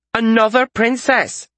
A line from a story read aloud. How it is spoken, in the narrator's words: she exclaimed